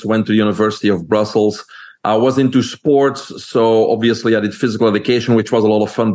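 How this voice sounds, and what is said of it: Belgian accent. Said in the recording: “people can hear my accent. I'm originally from Belgium.”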